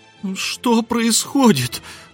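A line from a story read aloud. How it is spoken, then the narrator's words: Howling wail. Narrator (Russian): взвыла дымка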